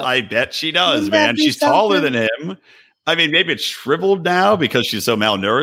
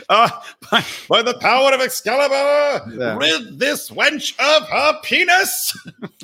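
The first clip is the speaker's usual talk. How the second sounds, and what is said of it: Performed heroic character voice. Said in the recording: “great impression”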